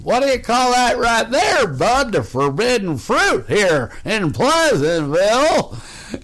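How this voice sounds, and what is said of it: Imitates an old man's voice. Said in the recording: “my voice imitating him as an old guy”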